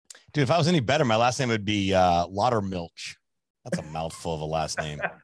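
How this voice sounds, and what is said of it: Polished radio-style voice. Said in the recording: “he's got that radio voice.”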